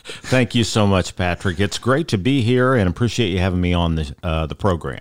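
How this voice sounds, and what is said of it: Polished radio-style voice. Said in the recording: “hearing that amazing radio voice.”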